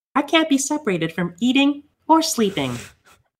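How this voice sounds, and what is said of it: Imitates a cartoon character's voice. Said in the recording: “this is how he sounds. I'm going to try to do it my best Kirby impression for how they do it in the game”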